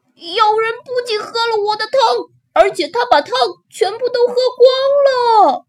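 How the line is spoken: Small bear roaring. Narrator (Chinese): 特别小的熊…大吼起来

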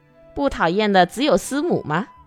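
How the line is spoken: Joking. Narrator (Chinese): 多多良开了个不合身份的玩笑

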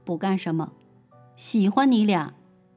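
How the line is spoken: Cold. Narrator (Chinese): 他冷冷地说

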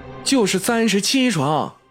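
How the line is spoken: Calling out. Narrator (Chinese): 叫道

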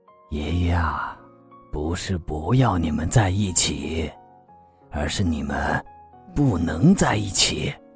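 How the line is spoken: Sighing. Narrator (Chinese): 司心杰叹了一口气

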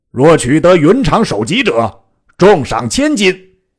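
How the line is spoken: Fierce shout. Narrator (Chinese): 晃厉声大叫曰

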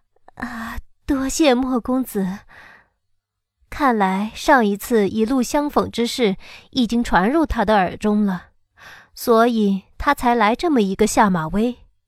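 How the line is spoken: Forced, shaky laugh. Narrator (Chinese): 我左手微抖，勉强笑道

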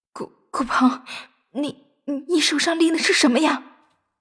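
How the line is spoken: Sudden stammering. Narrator (Chinese): 顾菲菲突然结结巴巴的说

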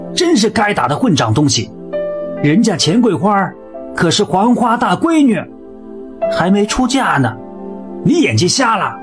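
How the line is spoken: Woman loudly scolding. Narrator (Chinese): 旁边的一个女人大声地骂道

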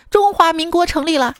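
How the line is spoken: Sudden shout. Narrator (Chinese): 猛地听到旁边有人喊

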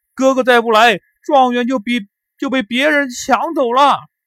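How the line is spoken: Loud shout. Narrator (Chinese): 刘高在那里大叫

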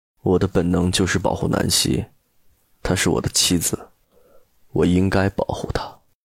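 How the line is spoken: Calm flat tone. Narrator (Chinese): 陆漠北语气还是淡淡的

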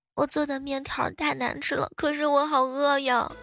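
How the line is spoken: Crying little girl. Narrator (Chinese): 呆萌的小丫头啊，哭哭啼啼的来了一句说

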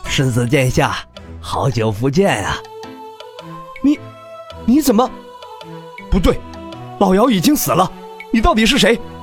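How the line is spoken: Soft, smiling. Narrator (Chinese): 丹王微微一笑，轻声道

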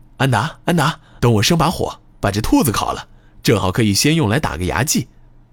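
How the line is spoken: Joyful shout. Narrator (Chinese): 一脸愉悦地叫喊道

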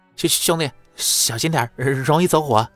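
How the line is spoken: Shaky trembling voice. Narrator (Chinese): 他下意识的哆嗦了一下……颤声说道

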